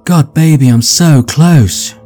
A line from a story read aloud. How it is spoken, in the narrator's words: she screams as her body trembles